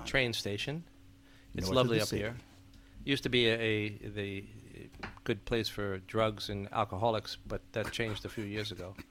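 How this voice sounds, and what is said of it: New York East Coast accent. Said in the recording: “I have that dialect from the north part of the town here... East Coast-ish... East Coast, New York.”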